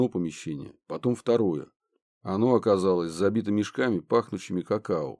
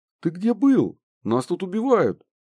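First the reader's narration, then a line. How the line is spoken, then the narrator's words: Startled shriek. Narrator (Russian): взвизгнула Банши, подпрыгнув от очередного тычка кондитера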